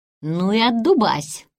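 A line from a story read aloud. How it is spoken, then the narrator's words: Grumbling. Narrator (Russian): проворчал Карл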